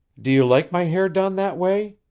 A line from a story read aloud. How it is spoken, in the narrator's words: she inquired eagerly